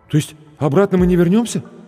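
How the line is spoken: Frightened question. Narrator (Russian): испуганно спросил зеленоглазый блондин

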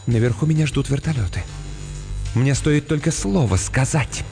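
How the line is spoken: Slightly trembling whisper. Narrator (Russian): Мисс Каммингс слегка дрожащим голосом прошептала

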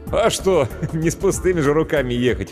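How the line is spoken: Short laugh. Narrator (Russian): хохотнул Иван

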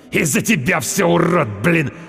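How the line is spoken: Hissing. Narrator (Russian): Прошипел он

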